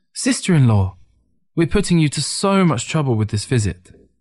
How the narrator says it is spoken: Ting eagerly exclaimed

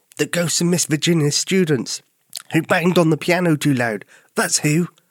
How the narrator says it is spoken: Albert replied, in a way that made little Suzi giggle

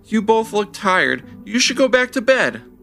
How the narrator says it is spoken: Levi pleaded

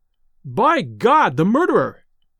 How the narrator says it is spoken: he cried

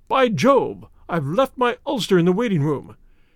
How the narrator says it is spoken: suddenly Clayton exclaimed

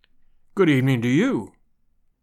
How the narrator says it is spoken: he said gravely

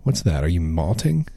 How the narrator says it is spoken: I meant it as a joke

